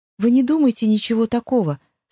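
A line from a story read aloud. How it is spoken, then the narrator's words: Embarrassed newcomer babbling. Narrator (Russian): смущенно лепетала новенькая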